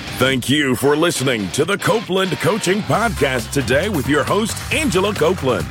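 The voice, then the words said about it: Deep-voiced announcer. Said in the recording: “deep voice guy”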